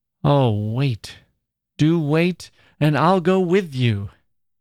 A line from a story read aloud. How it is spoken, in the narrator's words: she called out to Mrs